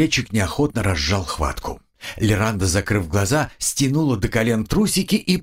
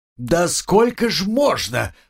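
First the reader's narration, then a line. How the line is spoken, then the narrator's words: Roaring. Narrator (Russian): взревела Лиранда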